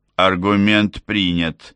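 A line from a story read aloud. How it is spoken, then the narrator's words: Snorting. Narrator (Russian): хмыкнул Артур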